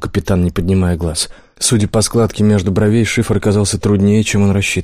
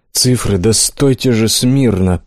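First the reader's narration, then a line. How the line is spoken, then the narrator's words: Grumbling. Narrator (Russian): проворчал он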